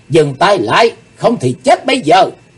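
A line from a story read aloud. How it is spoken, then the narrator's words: Loud shout. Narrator (Vietnamese): Chí Tôn hét lớn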